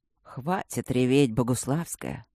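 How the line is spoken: Muffled soft ironic weary command. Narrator (Russian): Приглушенная от того, очень мягко скомандовала ей темнота ироничным и усталым голосом лорда Макса

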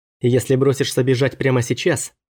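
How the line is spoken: Plain. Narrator (Russian): ответил я

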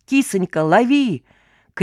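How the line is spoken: Shouted from below. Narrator (Russian): крикнули снизу

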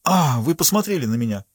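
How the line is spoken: Exclaimed. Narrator (Russian): воскликнул незнакомец

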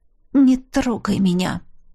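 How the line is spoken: Quiet and hard. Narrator (Russian): Тихо и жестко сказала я

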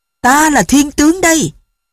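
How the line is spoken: Child shouting loudly. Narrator (Vietnamese): đứa bé vung gươm thét to

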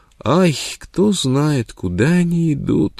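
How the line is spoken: Sobbing. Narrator (Russian): рыдала Непоза

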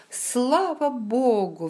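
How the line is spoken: Exclamation. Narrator (Russian): воскликнул он

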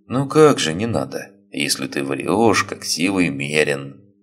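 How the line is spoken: Sighing. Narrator (Russian): вздохнул Чапай

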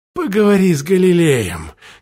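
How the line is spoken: Displeased mutter. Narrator (Russian): недовольно пробурчал

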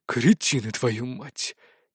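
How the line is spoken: Quiet. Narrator (Russian): тихо произнес полковник

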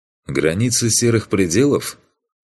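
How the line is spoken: Grunting. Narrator (Russian): хмыкнул я

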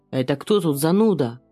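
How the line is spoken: Growling. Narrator (Russian): прорычал Алан

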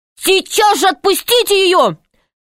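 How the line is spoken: Shouted. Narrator (Russian): крикнул Пашка

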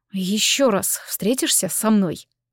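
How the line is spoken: Muttering. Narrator (Russian): пробормотал Такэру

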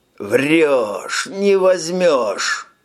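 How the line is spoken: Hoarse rasp. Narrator (Russian): хрипел Тони

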